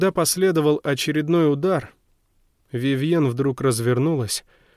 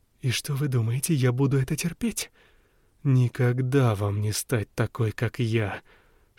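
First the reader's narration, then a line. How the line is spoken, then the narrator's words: Furious hiss. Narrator (Russian): шипела в бешенстве Эллен Леон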